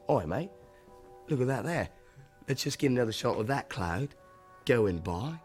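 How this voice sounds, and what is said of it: Put-on Australian accent. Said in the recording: “said in his Australian accent”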